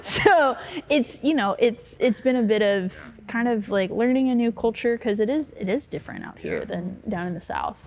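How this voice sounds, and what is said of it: Southern American accent. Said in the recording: “Do I detect a Southern accent?”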